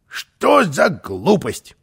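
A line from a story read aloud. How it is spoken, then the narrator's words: Grumbling. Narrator (Russian): ворчал Карлсон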